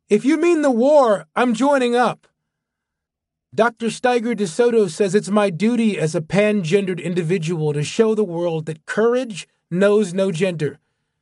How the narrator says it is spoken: His son shouted

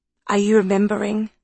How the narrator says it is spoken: asked Franny anxiously

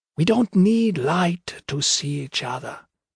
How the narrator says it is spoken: the mischief whispered

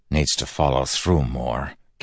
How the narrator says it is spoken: Kelsier mumbled

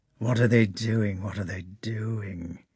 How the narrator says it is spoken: he muttered to himself

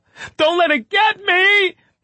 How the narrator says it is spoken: He screamed

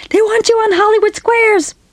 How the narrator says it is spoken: scream through the phone

